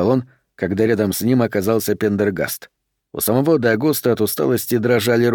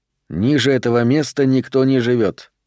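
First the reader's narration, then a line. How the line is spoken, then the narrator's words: Calm explanation. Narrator (Russian): спокойно пояснил Пендергаст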